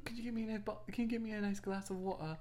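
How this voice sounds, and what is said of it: Put-on British accent. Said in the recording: “I can do a good British accent ... I think I can do a pretty good British accent”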